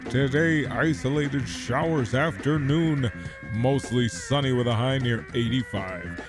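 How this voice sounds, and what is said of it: TV weatherman voice. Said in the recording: “I'll do my weatherman voice.”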